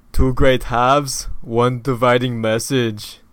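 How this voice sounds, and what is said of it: Imitates another person's voice. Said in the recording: “now say it in your Arnold accent ... Acceptable. ... I gotta work on it.”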